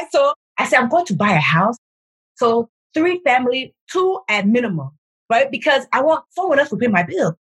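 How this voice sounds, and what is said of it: Nigerian accent. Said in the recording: “your Nigerian accent ... it's coming through”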